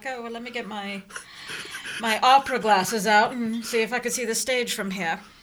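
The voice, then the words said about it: Put-on British accent. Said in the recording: “Don't know why I had a British accent, but I did.”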